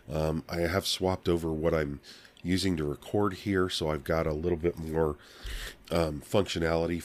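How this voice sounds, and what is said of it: Hoarse, scratchy voice. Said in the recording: “my voice is getting worse and worse ... the itchy and scratchy of it ... keep out some of the coughs”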